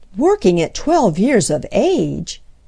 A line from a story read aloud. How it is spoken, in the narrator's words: exclaimed Mrs